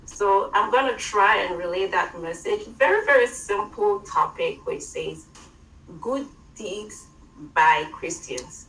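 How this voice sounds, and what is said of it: African accent. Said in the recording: “my African accent”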